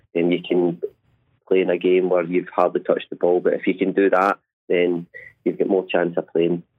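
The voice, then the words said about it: Glaswegian Scottish accent. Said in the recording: “obviously no one can have failed to have heard the accent ... You grew up in Glasgow”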